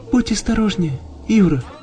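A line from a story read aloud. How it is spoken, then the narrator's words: Whisper. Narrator (Russian): прошептала она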